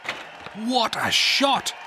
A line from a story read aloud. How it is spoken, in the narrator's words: shouted Coach Wilson